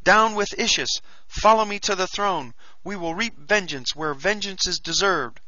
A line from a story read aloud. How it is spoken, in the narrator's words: I cried